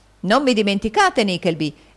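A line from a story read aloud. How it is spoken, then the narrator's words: Gentleman exclaiming. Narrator (Italian): esclamò un gentiluomo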